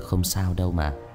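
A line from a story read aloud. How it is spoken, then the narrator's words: Gentle, smiling young man. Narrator (Vietnamese): Người thanh niên khẽ mỉm cười rồi nói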